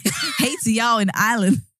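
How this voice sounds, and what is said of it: Attempted Irish accent. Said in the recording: “The accent as well. I was like, hey to y'all now. What's going on here? ... Is that supposed to be an Irish accent?”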